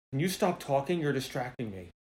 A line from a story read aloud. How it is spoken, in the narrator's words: I hear the guitar player whisper to him